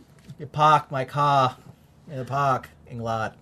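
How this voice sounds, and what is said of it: Put-on Boston accent. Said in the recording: “Coming to you live from Boston ... I thought that was a pretty good imitation”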